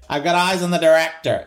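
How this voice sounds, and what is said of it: Poor put-on American accent, nasal, high. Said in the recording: “my American accent is terrible ... It's I get really nasal ... I get really nasal. I get really high.”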